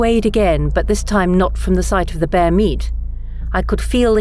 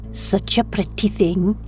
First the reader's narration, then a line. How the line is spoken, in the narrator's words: he whispered